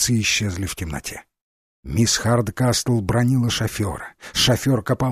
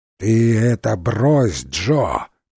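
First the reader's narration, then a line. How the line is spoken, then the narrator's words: Growled. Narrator (Russian): прорычала мисс Хардкастл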